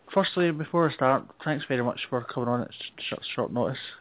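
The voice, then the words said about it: Scottish accent. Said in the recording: “I will try and slow down my accent, because I know the Scottish accent is not an easy one to understand.”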